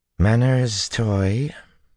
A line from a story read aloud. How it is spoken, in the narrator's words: Tuon drawled, like honey sliding out of a dish